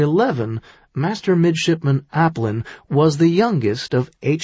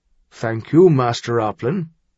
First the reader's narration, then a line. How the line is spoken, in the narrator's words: Harald said gravely